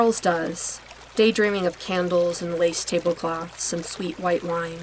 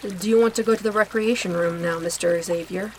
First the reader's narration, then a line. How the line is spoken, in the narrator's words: asks the nurse